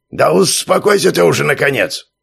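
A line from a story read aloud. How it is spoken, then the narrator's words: Displeased grumbling, prison warden. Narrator (Russian): Недовольно пробурчал начальник тюрьмы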